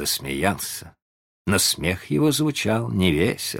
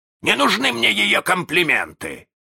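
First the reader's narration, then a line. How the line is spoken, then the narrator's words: Offended bark. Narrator (Russian): рявкнул с обидой Крюк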